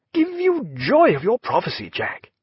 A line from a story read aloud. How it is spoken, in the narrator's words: he cried